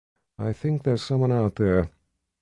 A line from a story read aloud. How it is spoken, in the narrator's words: Sister Amina said in a quiet voice